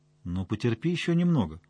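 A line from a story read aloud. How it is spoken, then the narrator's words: Gentle request. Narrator (Russian): мягко попросила Настя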